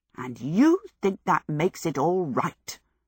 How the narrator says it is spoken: Sophie growled

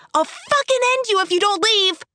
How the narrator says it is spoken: a voice yelps

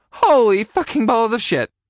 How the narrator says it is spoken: I squeaked

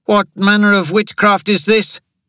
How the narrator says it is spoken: shouted Jamari

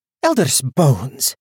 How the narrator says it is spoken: she spat

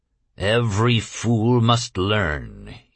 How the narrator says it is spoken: he growled

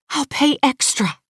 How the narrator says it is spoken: she whispers

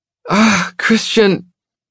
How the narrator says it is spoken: She groans

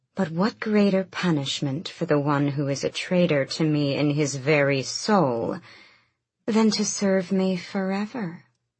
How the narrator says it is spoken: Fenris hissed, his breath coming in ragged gulps

